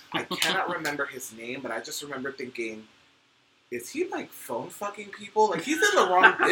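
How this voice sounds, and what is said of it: Usual voice. Nothing is said of it.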